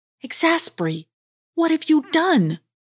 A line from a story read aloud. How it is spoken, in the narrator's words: cried Cedric